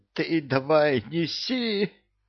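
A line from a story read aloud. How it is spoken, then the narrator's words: Hoarse wheeze. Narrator (Russian): просипел Кевин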